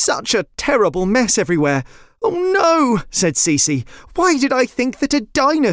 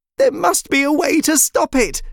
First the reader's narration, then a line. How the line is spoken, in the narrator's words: she cried